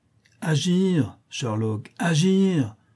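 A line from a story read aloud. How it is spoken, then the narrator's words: Exclaiming. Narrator (French): s'écria Mycroft en se dressant comme un ressort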